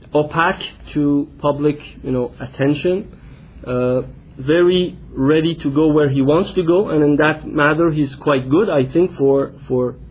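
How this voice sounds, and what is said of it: Non-native accented English. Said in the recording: “I'm sorry for my accent.”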